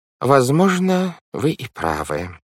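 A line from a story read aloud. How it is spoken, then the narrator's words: Sighing. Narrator (Russian): вздохнув, сказал мистер По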